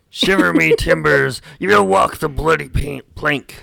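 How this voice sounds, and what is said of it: Pirate voice like Mr. Krabs. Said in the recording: “pirate impressions or pirate noises ... You sound like Mr. Krabs.”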